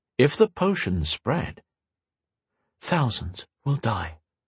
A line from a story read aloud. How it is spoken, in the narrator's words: Gwen said, her voice barely above a whisper